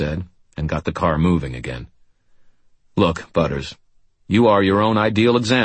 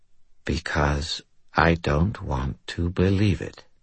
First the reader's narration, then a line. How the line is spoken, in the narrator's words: he said in a quiet, numb voice